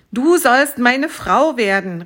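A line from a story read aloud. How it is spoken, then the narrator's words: Exclaimed. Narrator (German): rief aus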